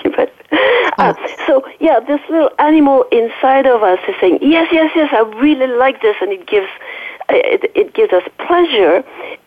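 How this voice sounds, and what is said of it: Slight French accent. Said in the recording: “excuse my French accent. ... So you hear a little bit of my French accent.”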